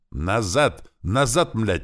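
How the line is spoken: Dazed shouting. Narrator (Russian): очухавшись после удара, закричал Клёпа

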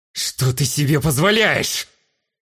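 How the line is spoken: Hissing. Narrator (Russian): зашипел на меня Низ

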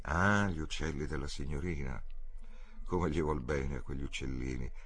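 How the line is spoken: Kind tone. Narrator (Italian): disse il falegname in tono gentile

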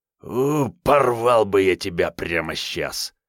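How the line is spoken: Hoarse wheeze. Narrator (Russian): просипел он

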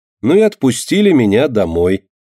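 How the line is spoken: Cheerful. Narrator (Russian): весело заканчивает Марина

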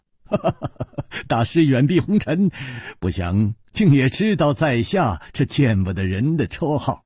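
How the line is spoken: Laughing. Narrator (Chinese): 楚留香……笑着说

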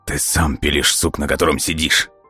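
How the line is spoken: Angry. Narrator (Russian): Зло произнес Волков

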